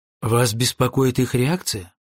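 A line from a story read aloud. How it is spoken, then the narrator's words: Plain. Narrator (Russian): спросил я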